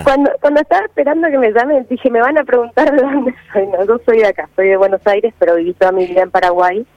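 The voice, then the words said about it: Particular mixed regional accent. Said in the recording (Spanish): “tiene una tonada particular que están tratando de descifrar y no logran descifrarla ... Tengo una tonada mezclada. Me han preguntado si soy de miles de lugares”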